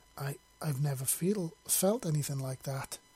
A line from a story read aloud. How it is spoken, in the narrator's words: he stammered